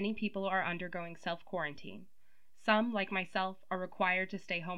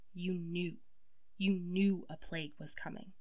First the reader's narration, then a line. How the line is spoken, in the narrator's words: heard her quietly tell Nico